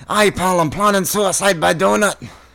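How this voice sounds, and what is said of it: Put-on Scottish accent. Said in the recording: “This is the best accent work since Dick Van Dyke ... I got an ear for Scottish accents”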